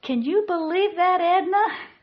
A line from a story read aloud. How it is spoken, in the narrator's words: laughed Victoria